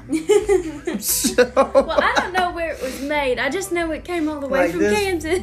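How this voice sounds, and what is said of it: East Texas accent. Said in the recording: “My East Texas accent.”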